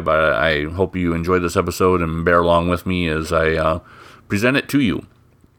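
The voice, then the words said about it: Stuffy, congested voice. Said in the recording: “I sound a little bit under the weather, a little bit off... I have a cold, so my head's a little stuffy, my nose is a little um, plugged up. So if I don't sound my normal self”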